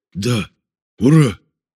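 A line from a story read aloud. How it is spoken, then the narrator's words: Shouted then whispered reply. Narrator (Russian): крикнув, прошептал в ответ боец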